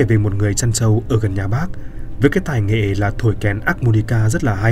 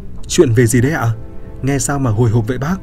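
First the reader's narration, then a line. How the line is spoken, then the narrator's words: Delighted, excited. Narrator (Vietnamese): Hoa thích chí lắm, hớn hở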